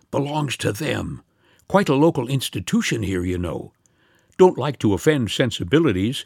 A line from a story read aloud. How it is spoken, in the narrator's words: hurried whispers